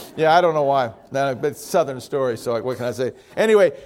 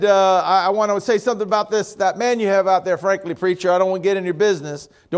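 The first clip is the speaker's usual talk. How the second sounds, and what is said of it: Put-on Southern American accent. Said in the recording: “Do you notice how I pick up a southern accent when I tell these stories?”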